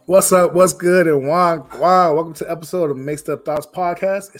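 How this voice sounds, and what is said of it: Rough, hoarse voice. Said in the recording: “Excuse my voice. I am just getting over a cold, so my voice is a little rough today ... my voice is gone”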